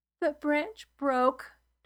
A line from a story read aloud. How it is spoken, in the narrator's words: Torian whimpered